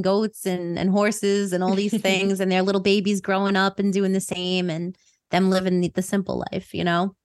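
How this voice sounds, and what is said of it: New York accent. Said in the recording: “I think it's obvious from my accent that you know where I'm from ... my New York people”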